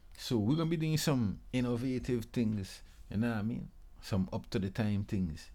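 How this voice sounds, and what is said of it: Virgin Islands Caribbean accent. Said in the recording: “you might be hearing my accent and not knowing where I'm from ... I'm from the Virgin Islands. First of all, I'm from the Caribbean”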